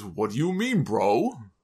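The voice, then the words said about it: Imitates a thick foreign accent. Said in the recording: “in that thick accent of his, he plays dumb”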